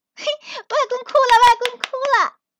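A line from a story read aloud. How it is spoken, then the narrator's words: Laughing. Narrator (Chinese): 我会拍着手笑起来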